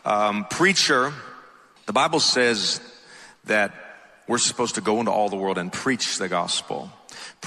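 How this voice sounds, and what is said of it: Thick Atlanta Southern accent. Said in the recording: “I'm from Atlanta, so if my accent's a little thick”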